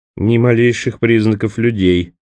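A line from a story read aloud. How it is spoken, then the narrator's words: Grumbling. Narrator (Russian): опять проворчал Джанни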